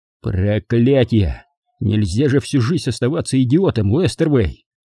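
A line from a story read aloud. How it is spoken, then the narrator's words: Bark. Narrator (Russian): рявкнул я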